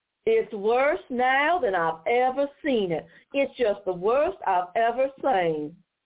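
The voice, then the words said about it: Mocking Southern US accent. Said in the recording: “I'm going to do the Southern accent to mock this horrible woman”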